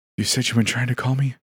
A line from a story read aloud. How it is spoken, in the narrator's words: Julie said, her voice quivering